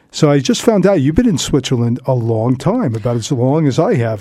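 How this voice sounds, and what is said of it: Thick New York accent. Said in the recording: “I've lost most of my New York accent, whereas I still hear a pretty thick spread on yours there”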